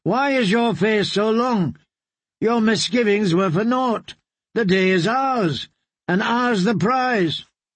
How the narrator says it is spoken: he called out

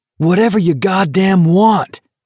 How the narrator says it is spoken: Garrity yelled

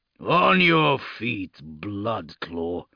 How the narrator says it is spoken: Grimblood rumbled

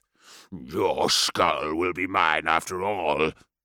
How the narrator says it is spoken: the warlord growled

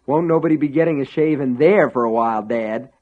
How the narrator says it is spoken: Ace breathed

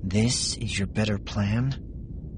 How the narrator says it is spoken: Scarlet said under her breath

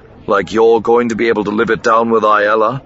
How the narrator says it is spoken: Corin growled back

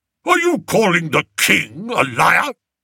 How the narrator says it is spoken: barked Lord Flapoon

